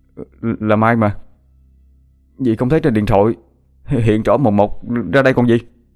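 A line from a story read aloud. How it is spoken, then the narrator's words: Stammering. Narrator (Vietnamese): Hoàng lắp bắp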